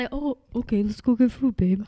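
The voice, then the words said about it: Impression of her boyfriend's voice. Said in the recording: “my impression of Corey”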